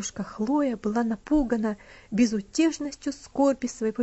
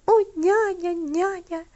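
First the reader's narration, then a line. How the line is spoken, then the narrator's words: Sobbing girl. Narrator (Russian): всхлипывала девочка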